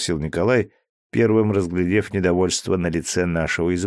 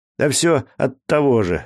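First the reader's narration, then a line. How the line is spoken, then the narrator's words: Snapping. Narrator (Russian): огрызнулся Дима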